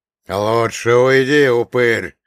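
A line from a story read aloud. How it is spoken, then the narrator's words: Growl. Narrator (Russian): прорычал Афанасий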